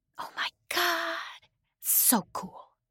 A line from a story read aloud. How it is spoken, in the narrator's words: she whispered back